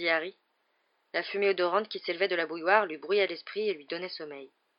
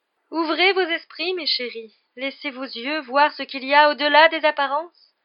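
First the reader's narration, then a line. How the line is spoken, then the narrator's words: Exclaiming. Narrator (French): s'écria le professeur Trelawney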